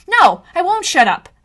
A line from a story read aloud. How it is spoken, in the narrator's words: said, my voice rising